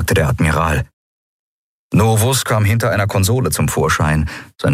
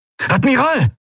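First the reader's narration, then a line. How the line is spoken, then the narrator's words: Calling out. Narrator (German): rief Quailor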